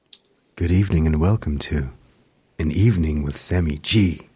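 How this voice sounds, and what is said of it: Sexy voice. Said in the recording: “My sexy voice is not as good as yours.”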